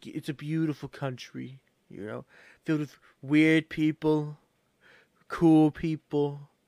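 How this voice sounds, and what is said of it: Imitates another person's voice. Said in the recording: “my impersonation of him ... let's see your impersonation”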